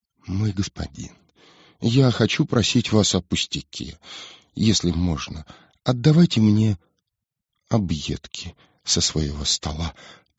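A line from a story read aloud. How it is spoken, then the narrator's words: Faint whisper. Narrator (Russian): прошептал едва слышный ленивец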